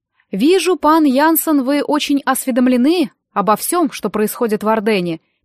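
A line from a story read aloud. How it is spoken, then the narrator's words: Interrupting. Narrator (Russian): перебила его Банше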